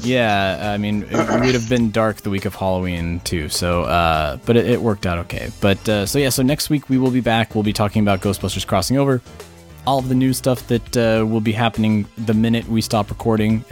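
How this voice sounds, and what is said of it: Strained, worn-out voice. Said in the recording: “I'm actually losing my voice because we've talked so much.”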